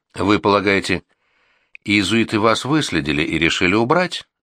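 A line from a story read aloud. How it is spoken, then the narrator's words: Plain question. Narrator (Russian): спросила Анриетта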